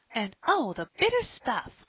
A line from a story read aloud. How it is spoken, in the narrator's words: cried Polly, with a wry face